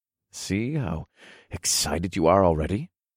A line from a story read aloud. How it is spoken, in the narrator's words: I purred